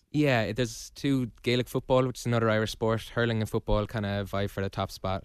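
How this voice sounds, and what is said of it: Irish accent. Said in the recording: “you like the accent?”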